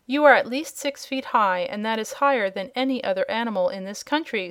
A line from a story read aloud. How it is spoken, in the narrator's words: said the wizard